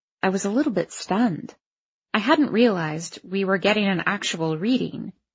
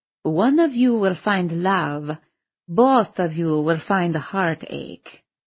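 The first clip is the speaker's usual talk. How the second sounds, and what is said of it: Thick foreign accent. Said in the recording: “said with a thick accent”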